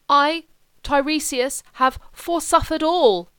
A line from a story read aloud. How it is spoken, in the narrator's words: he sobbed